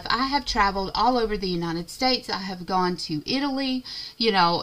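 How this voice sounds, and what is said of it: Southern American drawl. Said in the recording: “I'm supposed to be safe here and not get criticized for my southern drawl”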